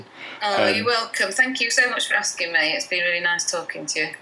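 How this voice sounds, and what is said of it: Northern English accent. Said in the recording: “you're northern ... Very northern. ... I knew it was quite up north by her accent.”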